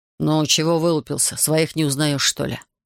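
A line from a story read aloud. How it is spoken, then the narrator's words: Two voices grumbling together. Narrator (Russian): Почти в один голос проворчали оба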